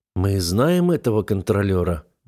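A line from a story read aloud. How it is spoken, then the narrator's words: Gloomy question. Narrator (Russian): мрачно спросил Элхар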